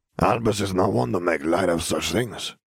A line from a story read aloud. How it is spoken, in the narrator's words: he mumbled